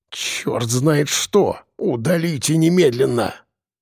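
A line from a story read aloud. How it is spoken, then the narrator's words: Hoarse wheeze. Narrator (Russian): прохрипел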